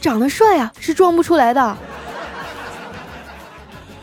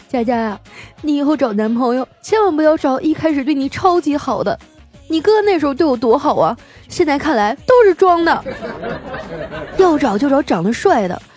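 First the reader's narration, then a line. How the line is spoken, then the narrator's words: Crying. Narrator (Chinese): 我嫂子哭着说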